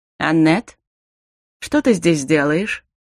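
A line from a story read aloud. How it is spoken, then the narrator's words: Calm, recovering from astonishment. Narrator (Russian): Совершенно спокойно спросил Дарил, едва окончательно совладал с изумлением и растерянностью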